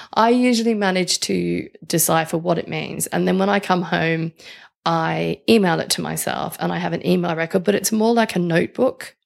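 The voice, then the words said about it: Australian accent. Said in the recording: “my Australian accent really doesn't help”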